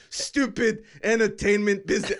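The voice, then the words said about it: Bad put-on French accent. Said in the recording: “This is my really bad French accent. ... It just sounds like yeah. I'm an angry guy in the subway in New York.”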